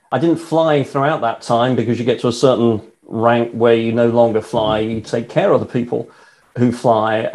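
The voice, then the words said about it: British English accent. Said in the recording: “as you can tell from the accent, I not only live in the UK, I'm British.”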